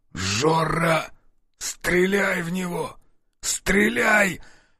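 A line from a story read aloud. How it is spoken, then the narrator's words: Hoarse rasp. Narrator (Russian): прохрипел друг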